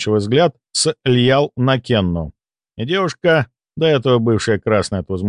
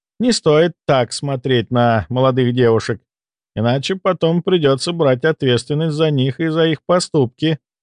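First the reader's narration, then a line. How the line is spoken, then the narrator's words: Laughing. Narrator (Russian): рассмеялась Льял, в ее улыбке мелькнул опасный оскал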